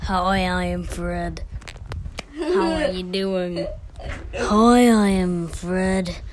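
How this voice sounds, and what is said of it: Impression of a cartoon character's voice. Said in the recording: “doing an impression of Fred”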